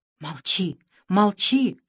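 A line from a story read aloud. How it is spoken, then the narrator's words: Whisper. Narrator (Russian): шептал Репартий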